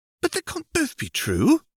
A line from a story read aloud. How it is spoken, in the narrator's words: exclaimed Tessie